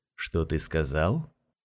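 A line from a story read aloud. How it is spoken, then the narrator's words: Low, slightly husky voice. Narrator (Russian): спросил низким, немного хриплым голосом продавец шаров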